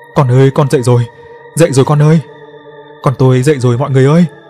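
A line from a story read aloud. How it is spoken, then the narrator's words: Wide laughing, joyful wailing. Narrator (Vietnamese): Bà Hoa cười ngoác mồm ra kêu gào la thét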